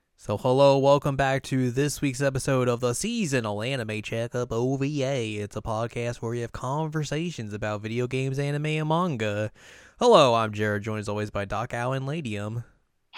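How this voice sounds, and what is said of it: Fake southern American accent. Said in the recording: “are you going into a fake southern accent too?”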